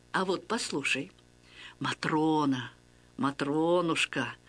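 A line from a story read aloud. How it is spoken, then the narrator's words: Gentle cooing priest. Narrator (Russian): ласково приговаривал священник, отец Василий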